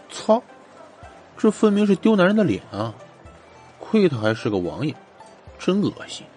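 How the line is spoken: Soft muttering. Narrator (Chinese): 荣琪终于是忍不住了，轻声的嘀咕着

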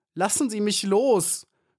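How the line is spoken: Screamed. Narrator (German): schrie Maya

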